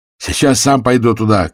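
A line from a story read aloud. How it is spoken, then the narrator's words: Shout. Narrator (Russian): крикнул Кофтун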